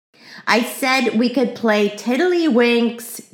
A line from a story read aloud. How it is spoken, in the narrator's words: yelled Ramona